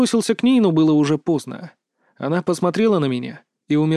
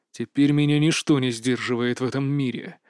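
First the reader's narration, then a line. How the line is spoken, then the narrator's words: Growling. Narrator (Russian): прорычал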